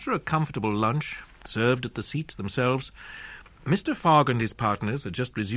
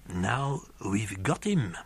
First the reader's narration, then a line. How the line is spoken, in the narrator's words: murmured Passepartout to himself